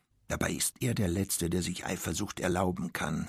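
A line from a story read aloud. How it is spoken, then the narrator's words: Quiet, as if to herself. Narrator (German): sagte sie leise, wie zu sich selbst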